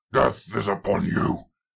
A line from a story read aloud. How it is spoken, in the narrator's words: roared